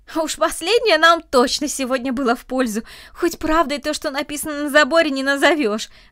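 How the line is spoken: Laughing. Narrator (Russian): рассмеялся Андрей

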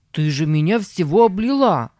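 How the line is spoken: Shout. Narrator (Russian): закричал

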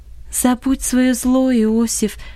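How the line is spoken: Calm but insistent. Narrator (Russian): сказала Долорес спокойно, но настойчиво

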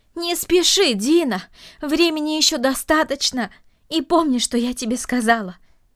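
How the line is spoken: Shouted after someone. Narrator (Russian): крикнула она ему вслед

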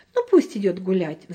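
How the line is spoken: Sighing mother. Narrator (Russian): вздохнула мама

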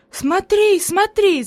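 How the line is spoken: Enthusiastic shout. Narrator (Russian): закричала Хади с энтузиазмом

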